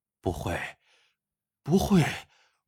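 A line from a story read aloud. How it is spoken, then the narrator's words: Mumbling in despair. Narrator (Chinese): 蔡兆寿面如死灰，喃喃的说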